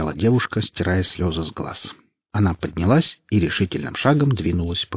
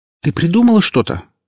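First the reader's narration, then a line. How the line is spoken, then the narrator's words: Exclaiming. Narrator (Russian): воскликнула Оля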